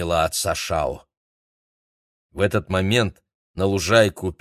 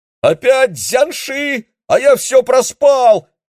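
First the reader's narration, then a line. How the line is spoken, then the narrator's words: Wailed. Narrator (Russian): завопил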